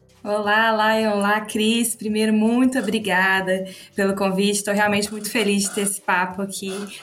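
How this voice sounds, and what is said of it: Minas Gerais Brazilian accent. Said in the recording (Portuguese): “representando, né, Minas, com esse sotaque assim bem característico ... a ... que é mineira ... Os sotaques são, são bem característicos”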